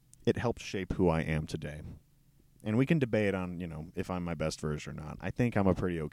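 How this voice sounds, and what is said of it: Usual voice. Nothing is said of it.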